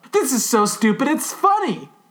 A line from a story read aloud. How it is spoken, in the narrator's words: Allie cried